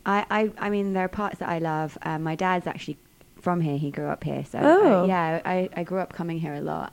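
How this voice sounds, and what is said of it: British accent, from London. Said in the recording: “You have a sweet accent. Are you from the UK? ... I'm from London.”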